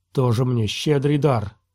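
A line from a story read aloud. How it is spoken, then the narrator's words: Contemptuous grumble. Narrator (Russian): презрительно проворчал он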